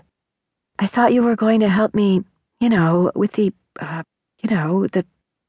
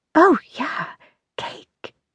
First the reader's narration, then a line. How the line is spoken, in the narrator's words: Christina whispered